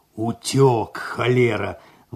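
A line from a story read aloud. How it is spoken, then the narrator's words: Admiring deep bass. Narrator (Russian): восхищенно пробасил кот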